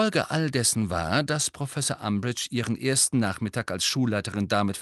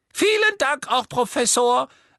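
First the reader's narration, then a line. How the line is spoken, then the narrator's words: Quiet squeaky voice. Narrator (German): sagte Professor Flitwick mit seiner leisen Quiekstimme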